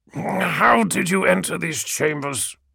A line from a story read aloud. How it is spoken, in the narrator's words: He growled